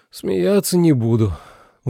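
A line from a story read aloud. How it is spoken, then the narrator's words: Sigh. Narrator (Russian): вздохнул Миша Анхари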